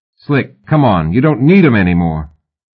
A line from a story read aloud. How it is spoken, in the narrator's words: the face on the screen says